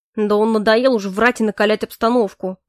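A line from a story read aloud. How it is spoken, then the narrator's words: Grumbling. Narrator (Russian): проворчал Грей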